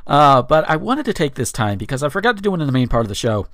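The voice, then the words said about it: Tired-sounding voice. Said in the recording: “my voice might sound a little bit more tired than usual”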